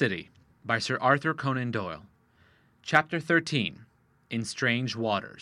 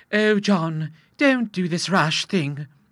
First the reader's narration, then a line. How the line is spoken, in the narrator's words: cried Mrs